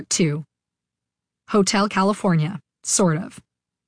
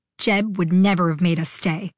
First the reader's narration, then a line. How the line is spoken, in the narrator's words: Iggy said angrily